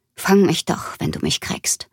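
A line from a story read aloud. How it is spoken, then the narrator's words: Murmuring. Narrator (German): murmelte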